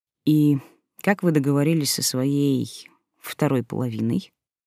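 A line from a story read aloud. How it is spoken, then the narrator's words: Plain. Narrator (Russian): спросил Василий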